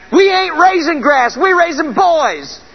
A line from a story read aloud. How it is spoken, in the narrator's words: his dad hollered back